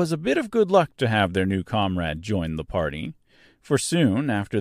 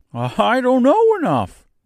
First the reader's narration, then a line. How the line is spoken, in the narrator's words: replied the Scarecrow cheerfully